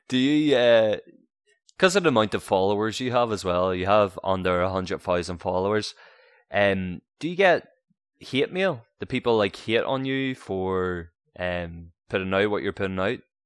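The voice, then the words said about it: Speaks with a noticeable accent. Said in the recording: “It's my accent.”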